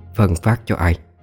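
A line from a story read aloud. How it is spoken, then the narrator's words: Harsh, emphatic. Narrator (Vietnamese): Bà gằn giọng nói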